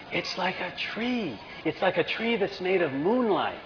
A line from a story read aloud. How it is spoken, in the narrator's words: Rachel whispers